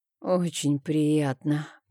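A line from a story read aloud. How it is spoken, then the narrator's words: Hoarse rasp. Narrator (Russian): прохрипела я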